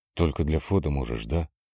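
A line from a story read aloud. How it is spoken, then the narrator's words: Very quiet. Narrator (Russian): Он спросил это так тихо, что Яна едва услышала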